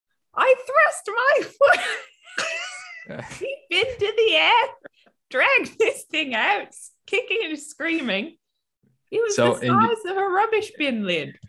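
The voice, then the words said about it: Put-on New Zealand accent, high-pitched. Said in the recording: “a New Zealand accent is just like you raise your pitch by about like an octave and then you scream ... the pitch change threw me off”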